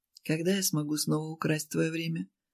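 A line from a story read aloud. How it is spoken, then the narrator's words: Quiet question. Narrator (Russian): спросил тихо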